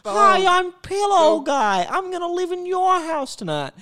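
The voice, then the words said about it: Comedic character voice. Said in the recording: “I'm doing the Pillow Guy from the Gus Johnson skit”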